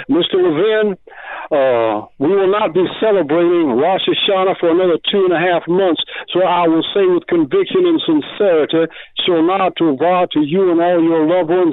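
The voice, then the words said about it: Southern US accent. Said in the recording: “Southern accent in a long time. I just want you to know, Southern accent Hebrew, that's pretty damn good”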